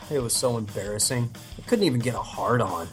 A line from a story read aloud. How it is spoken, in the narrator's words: First dwarf mutters